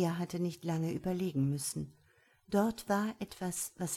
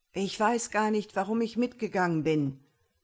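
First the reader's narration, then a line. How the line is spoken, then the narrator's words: Shouting against the wind. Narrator (German): rief Juha gegen den Wind an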